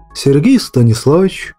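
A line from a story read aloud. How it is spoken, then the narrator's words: Soft. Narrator (Russian): мягко произнес Аснаб, выпуская клуб дыма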